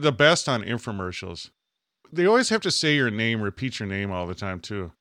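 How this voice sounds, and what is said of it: Usual voice. Nothing is said of it.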